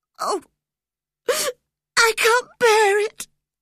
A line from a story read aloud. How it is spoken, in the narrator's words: he sobbed